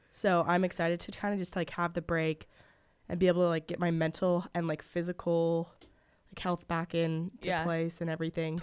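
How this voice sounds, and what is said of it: Hoarse, wrecked voice. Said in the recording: “my voice is like a little wrecked, so I'm like still getting over the sickness”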